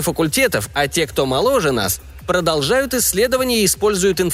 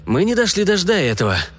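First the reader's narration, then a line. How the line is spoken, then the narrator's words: Grumbled. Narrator (Russian): буркнул Март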